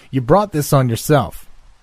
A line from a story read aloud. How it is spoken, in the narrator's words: he said fiercely